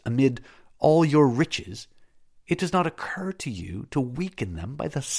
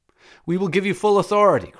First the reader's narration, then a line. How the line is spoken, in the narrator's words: cried the chiefs of the Syssitia